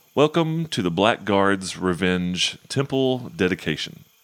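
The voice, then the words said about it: Announcer voice. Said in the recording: “I don't know why I'm doing like an announcer voice”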